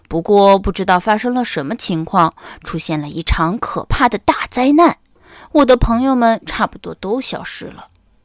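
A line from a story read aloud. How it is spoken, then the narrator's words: Sighing. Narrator (Chinese): 水先生叹了一口气说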